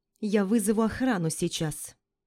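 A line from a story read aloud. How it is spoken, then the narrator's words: Calm. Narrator (Russian): спокойно говорит чертова бюрократка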